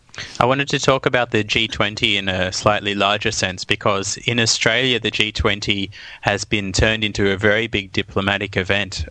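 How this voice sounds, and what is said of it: Australian accent. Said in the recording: “the people who didn't uh, notice it from your accent, you're actually originally from Australia.”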